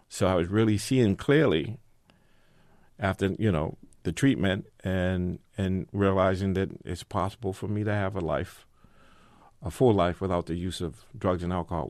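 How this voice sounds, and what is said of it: Boston accent. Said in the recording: “people may surmise this from your accent, but this was all playing out in the Boston area.”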